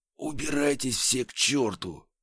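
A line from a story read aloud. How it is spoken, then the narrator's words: Whisper. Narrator (Russian): еще раз прошептал я в пустоту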